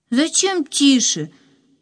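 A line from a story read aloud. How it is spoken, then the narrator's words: Loud question. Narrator (Russian): так же громко спросила Катя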